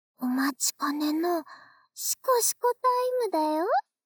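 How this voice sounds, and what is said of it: Whispering close to the ear. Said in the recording (Japanese): “また耳元で、シコシコ囁くね。”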